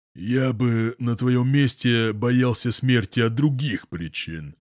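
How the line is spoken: Gloomy. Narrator (Russian): мрачно говорит Паша

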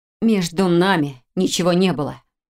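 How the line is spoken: Through teeth, choked, near tears. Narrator (Russian): процедила Хильда, почувствовав, как сжалось горло, а глаза защипало

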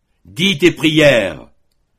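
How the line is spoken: Terrible repeating voice. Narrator (French): répéta Matteo d'une voix terrible

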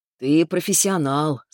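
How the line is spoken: Calm reply. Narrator (Russian): спокойно ответил Субботкин

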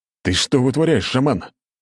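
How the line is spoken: Roared. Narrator (Russian): взревел молодой вождь

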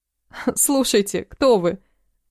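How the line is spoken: Involuntary laugh. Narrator (Russian): Невольно засмеялась я

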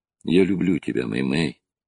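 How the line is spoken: Soft, tender. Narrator (Russian): мягко сказал он

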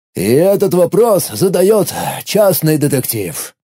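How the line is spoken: Sighing octopus. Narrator (Russian): вздохнул осьминог

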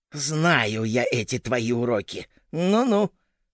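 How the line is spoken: Hissing wife. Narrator (Russian): прошипела жена

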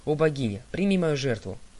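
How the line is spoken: Exclamation. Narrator (Russian): он воскликнул

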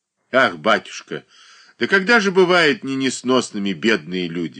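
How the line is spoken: Sigh. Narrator (Russian): вздохнула Марья Дмитриевна

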